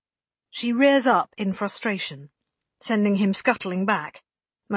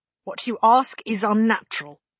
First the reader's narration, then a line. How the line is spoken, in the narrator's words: tells him sternly, controlling herself